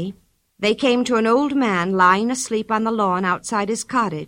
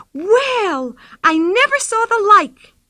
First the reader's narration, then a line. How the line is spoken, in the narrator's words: she cried